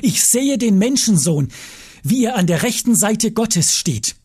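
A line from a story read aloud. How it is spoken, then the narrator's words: Calling out. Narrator (German): rief er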